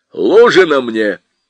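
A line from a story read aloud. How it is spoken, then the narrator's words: Sharp command. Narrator (Russian): резко приказал Фигурин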